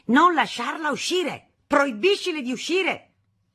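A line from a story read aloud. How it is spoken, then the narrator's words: Father yelling. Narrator (Italian): Mio padre urlava a mia madre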